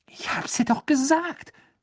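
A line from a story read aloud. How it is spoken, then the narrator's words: Hissed. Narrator (German): zischte Ron Hermine zu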